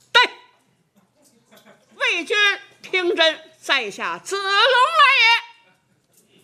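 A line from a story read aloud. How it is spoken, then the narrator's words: Loud shout. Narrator (Chinese): 有人高声喊嚷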